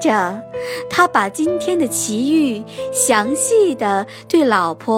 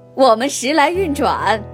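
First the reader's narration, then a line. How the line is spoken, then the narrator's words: Hearty laughter. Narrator (Chinese): 阿里巴巴哈哈大笑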